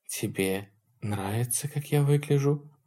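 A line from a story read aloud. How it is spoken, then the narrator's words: Whisper. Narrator (Russian): прошептала Лин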